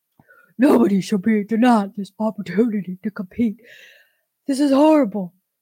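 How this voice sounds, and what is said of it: Mock impersonation of a trans woman. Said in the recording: “Let me impersonate a trans woman.”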